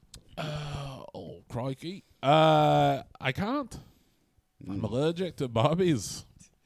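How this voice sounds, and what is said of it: Australian accent. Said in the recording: “a British man who sounds Australian”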